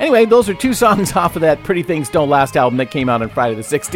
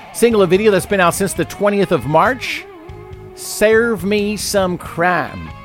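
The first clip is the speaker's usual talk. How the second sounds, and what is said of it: Sudden put-on Southern accent. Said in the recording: “I don't know why I got a southern accent all of a sudden”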